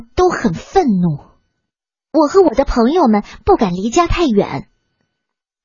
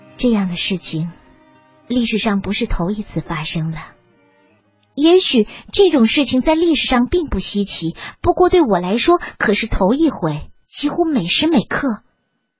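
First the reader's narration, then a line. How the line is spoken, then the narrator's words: Sighing. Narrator (Chinese): 妈妈叹了口气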